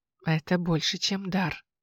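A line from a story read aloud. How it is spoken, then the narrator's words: Quiet. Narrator (Russian): тихо сказал он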